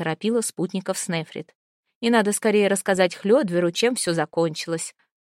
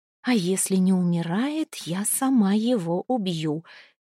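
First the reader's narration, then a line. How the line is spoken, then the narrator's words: Angry whisper. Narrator (Russian): сердито прошептала Снефрид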